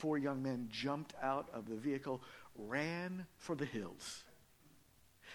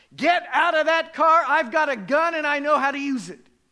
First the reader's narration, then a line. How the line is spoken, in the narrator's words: she shouted at the top of her lungs